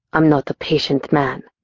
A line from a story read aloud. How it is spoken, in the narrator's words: he growled